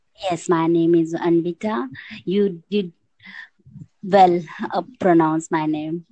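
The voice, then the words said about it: Indian English accent. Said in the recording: “from your accent, you are from India”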